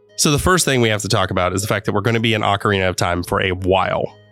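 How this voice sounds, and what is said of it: Slightly nasal, congested voice. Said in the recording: “I sound a little nasally because I'm a little sick right now”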